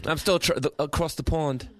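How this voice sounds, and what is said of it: Unconvincing put-on British accent. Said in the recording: “Is my British accent horrible ... He wants so badly to have a convincing British accent, and it still isn't working.”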